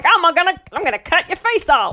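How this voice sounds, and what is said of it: Put-on Australian accent. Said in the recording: “my Australian accent.”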